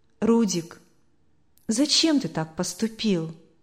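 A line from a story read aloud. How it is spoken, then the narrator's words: Very sad question. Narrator (Russian): Очень печально спросила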